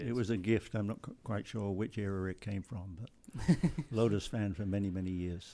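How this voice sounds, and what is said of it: English accent. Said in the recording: “judging by the accent, you grew up in the UK and England”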